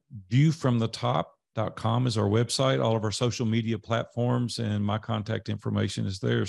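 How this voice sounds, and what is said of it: Tennessee accent. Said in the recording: “I enjoyed the Tennessee accent today, by the way. ... I knew we were going to get off on that accent.”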